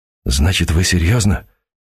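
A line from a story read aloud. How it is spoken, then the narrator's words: Near whisper. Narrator (Russian): почти шепотом выговорил Сергей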